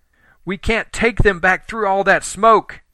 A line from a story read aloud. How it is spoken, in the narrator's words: Helen yelled